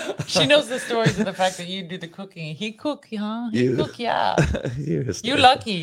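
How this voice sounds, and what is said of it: Usual voice. Nothing is said of it.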